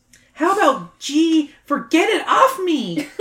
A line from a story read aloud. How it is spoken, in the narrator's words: Sam shrieks